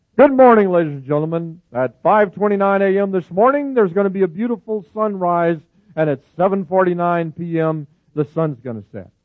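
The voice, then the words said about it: Mimics a TV weatherman's voice. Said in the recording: “my weatherman impersonation.”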